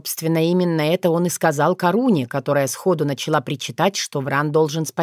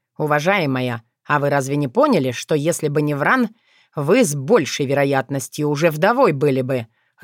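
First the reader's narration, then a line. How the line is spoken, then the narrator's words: Growled. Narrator (Russian): рыкнул Филипп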